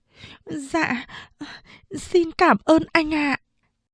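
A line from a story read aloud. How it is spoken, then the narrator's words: Stammering girl. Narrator (Vietnamese): Cô gái lắp bắp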